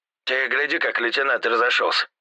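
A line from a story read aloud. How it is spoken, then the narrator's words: Snort. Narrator (Russian): хмыкнул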